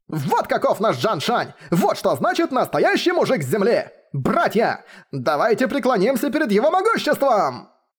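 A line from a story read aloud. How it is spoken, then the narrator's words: Shouting. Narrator (Russian): заорал Яо Ален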